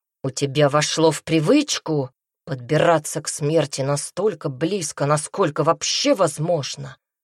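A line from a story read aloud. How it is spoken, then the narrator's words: Growling. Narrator (Russian): зарычал Брайан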